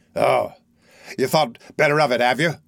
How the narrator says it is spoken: growled Sykes

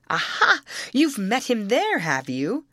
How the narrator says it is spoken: exclaimed Rosalie, with exultant laughter

